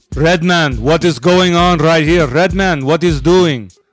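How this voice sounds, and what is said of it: Put-on Indian-sounding accent. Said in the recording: “do the accent ... You're making him sound Indian ... Israeli vibes”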